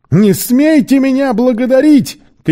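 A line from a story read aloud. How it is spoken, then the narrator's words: Shout. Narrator (Russian): крикнул Сквайр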